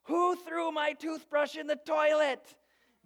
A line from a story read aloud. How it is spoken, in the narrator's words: She screams